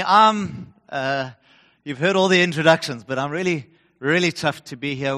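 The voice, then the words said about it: Noticeable regional accent. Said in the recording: “I'm not sure whether I need to apologize for my accent or commiserate with you”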